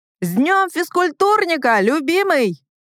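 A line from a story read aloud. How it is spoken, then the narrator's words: Shouted. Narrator (Russian): крикнула я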